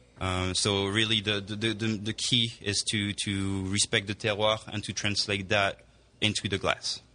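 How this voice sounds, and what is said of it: French accent. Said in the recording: “that's not a New York accent you have... You obviously were born and raised in France.”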